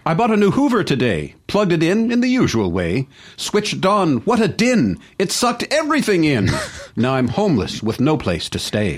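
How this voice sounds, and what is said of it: Reads in a put-on accent. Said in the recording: “I love the accent”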